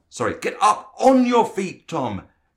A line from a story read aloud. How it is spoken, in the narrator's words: Frank shouted